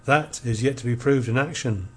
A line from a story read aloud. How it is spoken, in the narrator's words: said he